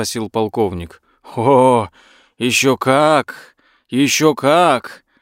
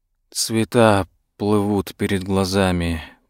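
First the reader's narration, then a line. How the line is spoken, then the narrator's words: Whisper. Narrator (Russian): прошептал полковник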